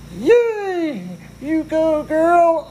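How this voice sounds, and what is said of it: High-pitched put-on voice. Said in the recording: “do a high voice”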